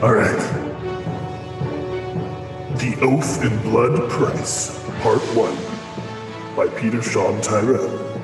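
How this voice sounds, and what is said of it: Dramatic movie-trailer announcer voice. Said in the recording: “hit him with the production value of naming his book. Give us the full announcer voice.”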